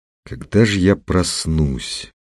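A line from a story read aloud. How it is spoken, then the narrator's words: Quiet. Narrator (Russian): тихо сказал Петр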